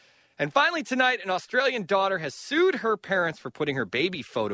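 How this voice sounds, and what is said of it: Usual voice. Nothing is said of it.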